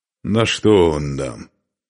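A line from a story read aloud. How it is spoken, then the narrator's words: Displeased grumbling. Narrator (Russian): недовольно проворчал Устах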